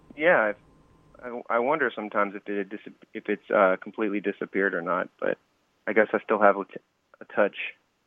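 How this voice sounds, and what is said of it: Slight Southern American accent. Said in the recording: “a hint of a Southern accent? ... It's just like a nice little touch of it.”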